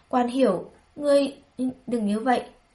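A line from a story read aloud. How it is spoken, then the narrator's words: Stammering. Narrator (Vietnamese): Bùi Nguyên Dung ấp à ấp úng nói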